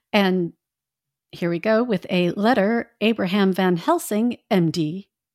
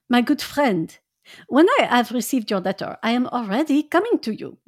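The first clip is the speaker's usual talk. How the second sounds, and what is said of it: Put-on French accent. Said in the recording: “it is going to be a French accent.”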